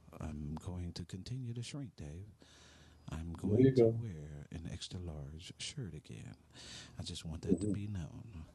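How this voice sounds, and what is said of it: Low, sultry bedroom voice. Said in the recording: “go into my bedroom voice”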